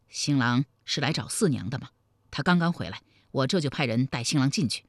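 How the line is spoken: Low-voiced question. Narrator (Chinese): 李隆基压低声音问道

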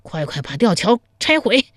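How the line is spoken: Breathless speech. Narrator (Chinese): 姚峰 一边喘息一边说道

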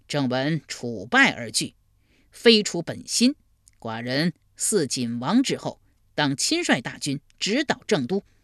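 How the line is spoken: Angry. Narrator (Chinese): 文公拒而不见，怒曰

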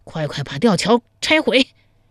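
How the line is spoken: Panting. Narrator (Chinese): 一边喘息一边说道

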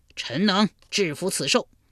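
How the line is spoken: Loud. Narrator (Chinese): 魏抽大声说

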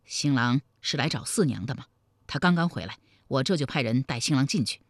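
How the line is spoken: Hushed question. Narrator (Chinese): 李隆基压低声音问道

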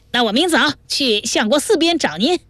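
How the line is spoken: Loud shouting. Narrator (Chinese): 彭真儿却仍在店外高声喊着

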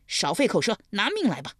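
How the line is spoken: Roaring. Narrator (Chinese): 20位吼道

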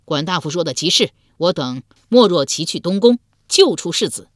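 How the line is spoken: Loud reply. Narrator (Chinese): 鲍叔牙之子鲍勇高声应道

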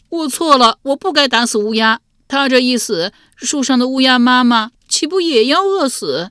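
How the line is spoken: Loud sobbing. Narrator (Chinese): 他越想越是难受，竟放声哭了起来

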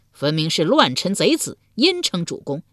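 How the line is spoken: Crowd mocking. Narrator (Chinese): 众人讥笑道

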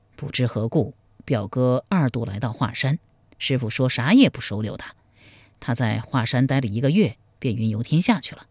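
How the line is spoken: Long sigh. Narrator (Chinese): 苗逊长叹一声说

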